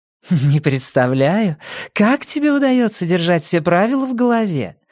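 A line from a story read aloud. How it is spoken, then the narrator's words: Giggling. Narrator (Russian): хихикнула Нина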